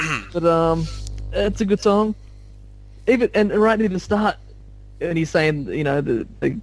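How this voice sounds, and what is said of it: Usual voice. Nothing is said of it.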